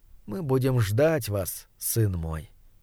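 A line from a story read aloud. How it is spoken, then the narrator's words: Quiet. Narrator (Russian): негромко сказала она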